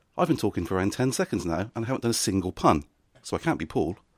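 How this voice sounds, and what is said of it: Soothing West Country accent. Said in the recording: “there's still that West Country twang, but a little more soothing, more inviting, dare I say it, more sensual?”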